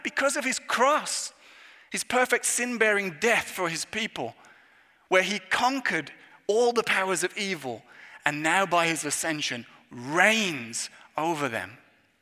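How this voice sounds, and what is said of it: English accent. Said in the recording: “given by the fact of my accent, you can tell where I am from ... the origins of this country in relation to the English monarchy”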